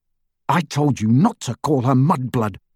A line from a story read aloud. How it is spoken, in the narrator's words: snarled Harry